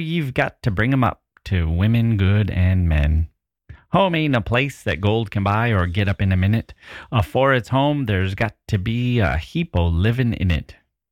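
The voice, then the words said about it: Put-on accent while reciting poem. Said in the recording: “I fell into an accent.”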